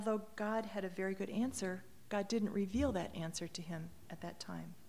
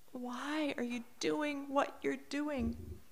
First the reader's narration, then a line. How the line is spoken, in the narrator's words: psalmist cries out